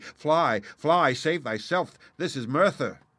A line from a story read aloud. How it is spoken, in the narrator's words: People got so excited that they shouted to me